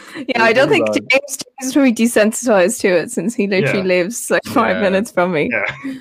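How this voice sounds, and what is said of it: Strong Dublin Irish accent. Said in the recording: “Is my accent as bad in person? ... It's actually worse. ... I'm used to that accent ... the Dublin accent, was just getting stronger”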